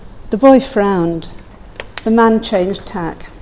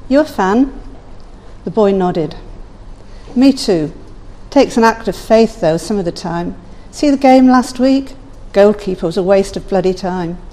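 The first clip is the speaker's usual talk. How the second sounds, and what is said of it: Man's voice with London accent. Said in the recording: “He had a London accent.”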